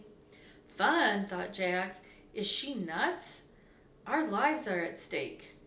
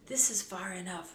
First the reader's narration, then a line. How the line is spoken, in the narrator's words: whispered Slim